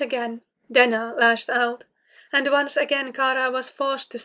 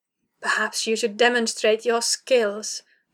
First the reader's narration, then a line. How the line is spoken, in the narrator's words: Denna rasped